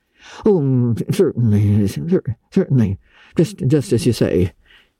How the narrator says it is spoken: stammered unhappy Matthew

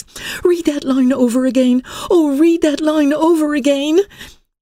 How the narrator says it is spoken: she cried with passionate earnestness

